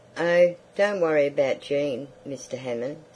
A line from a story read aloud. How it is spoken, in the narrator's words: said Mrs